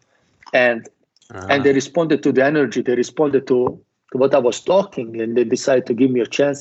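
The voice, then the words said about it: Non-native accented English. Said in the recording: “they didn't even understand my English because of my accent”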